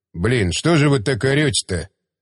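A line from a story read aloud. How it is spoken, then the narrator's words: Grumble. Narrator (Russian): проворчал Булава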